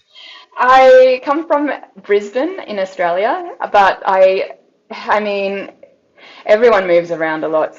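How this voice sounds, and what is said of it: Australian accent. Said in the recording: “I could tell by your accent”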